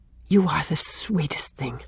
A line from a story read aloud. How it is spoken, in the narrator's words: he said in a sudden, intense whisper